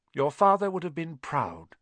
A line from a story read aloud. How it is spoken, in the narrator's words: she said